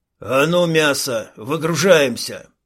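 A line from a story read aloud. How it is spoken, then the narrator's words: Barked. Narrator (Russian): рявкнул второй боевик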